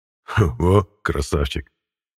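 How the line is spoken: Chuckling. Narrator (Russian): хохотнул Мирон

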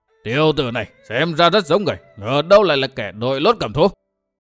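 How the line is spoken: Roaring. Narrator (Vietnamese): vừa múa vừa gầm lên

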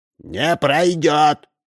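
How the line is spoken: Thin squeaky shout. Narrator (Russian): закричал комаром Удалов

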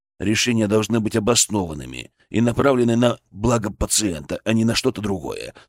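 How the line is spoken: Calm retort. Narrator (Russian): спокойно парировал я

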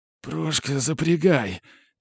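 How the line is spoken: Quiet wheeze. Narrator (Russian): тихонько просипел масон

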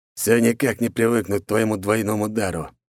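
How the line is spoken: Grumbling. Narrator (Russian): пробурчал он

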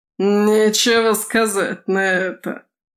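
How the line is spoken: Mocking guffaw. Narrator (Russian): Издевательски захохотал Ротор

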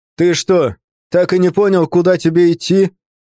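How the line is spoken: Train driver's shout. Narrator (Russian): крикнул Степан, тот самый машинист

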